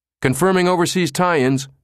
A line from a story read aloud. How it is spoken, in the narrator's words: cried another technician